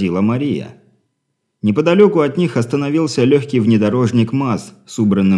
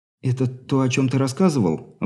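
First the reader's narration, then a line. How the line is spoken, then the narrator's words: Suddenly husky question. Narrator (Russian): вдруг севшим голосом поинтересовалась Алина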